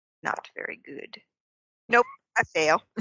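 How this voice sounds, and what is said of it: Put-on character accent. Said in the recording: “I like how you use the accent in the describing role. Not the very good.”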